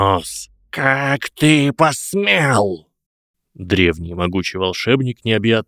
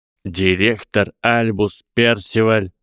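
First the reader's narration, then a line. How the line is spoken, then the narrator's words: Icy tone. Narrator (Russian): начал Гарри ледяным тоном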